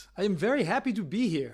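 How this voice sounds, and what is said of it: Imitates Prince Akeem's accent. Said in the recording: “I was trying to sound like Prince Akeem... there's a Munda accent, just doesn't cut it”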